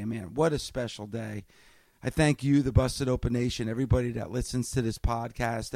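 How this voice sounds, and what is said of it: Hoarse voice. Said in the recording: “my voice is hoarse because I'm yelling and screaming”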